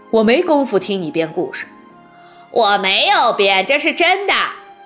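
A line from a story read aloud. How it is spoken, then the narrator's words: Stern interruption. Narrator (Chinese): 秦老师厉声打断马小跳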